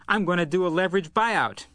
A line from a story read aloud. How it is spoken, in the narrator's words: Johnson said, greeting Grennis excitedly